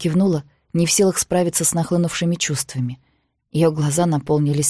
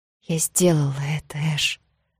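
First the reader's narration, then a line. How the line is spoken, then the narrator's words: Whisper. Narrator (Russian): прошептала она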